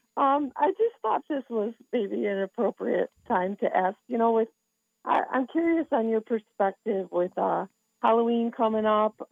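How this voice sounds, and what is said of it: Hoarse, croaky voice from laryngitis. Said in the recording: “Excuse the laryngitis ... Oh, I'm sorry you have laryngitis today ... can you kind of croak out your question there?”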